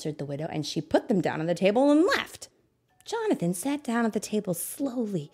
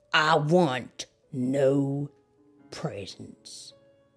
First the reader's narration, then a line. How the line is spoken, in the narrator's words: he said harshly